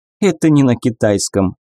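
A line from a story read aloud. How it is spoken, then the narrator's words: Snort. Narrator (Russian): хмыкнула Мэй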